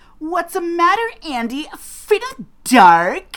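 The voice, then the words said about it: Valley Girl voice. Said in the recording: “I'll do my best impersonation. ... It's like so Valley Girl.”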